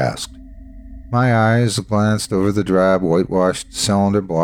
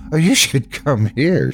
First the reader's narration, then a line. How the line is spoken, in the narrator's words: said, laughing